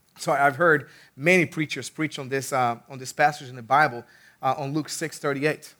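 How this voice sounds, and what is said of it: Rough, strained voice. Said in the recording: “my voice is a little bit messed up today”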